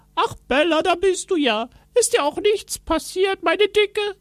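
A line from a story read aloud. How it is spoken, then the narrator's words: Called out. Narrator (German): rief er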